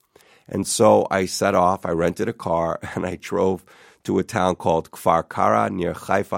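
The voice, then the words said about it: American accent. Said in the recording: “I apologize for my American accent.”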